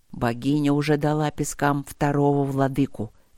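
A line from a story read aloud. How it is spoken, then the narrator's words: Quiet rumble. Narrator (Russian): тихо пророкотал Нории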